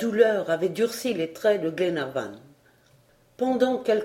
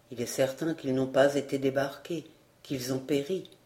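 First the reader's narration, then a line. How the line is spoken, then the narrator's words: Muffled, hollow voice. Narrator (French): répondit John d'une voix sourde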